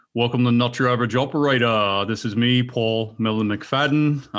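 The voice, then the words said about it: Imitates another person's accent. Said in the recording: “do the melon accent? Because you can actually do a pretty decent job of it”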